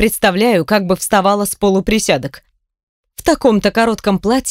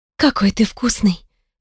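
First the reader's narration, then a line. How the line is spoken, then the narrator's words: Husky with rising excitement. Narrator (Russian): В моем голосе появляется хрипотца от нарастающего с каждой секундой возбуждения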